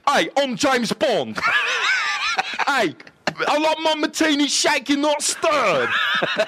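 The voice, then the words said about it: Imitation of James Bond's voice. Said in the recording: “best James Bond impression ... It's not like spot on”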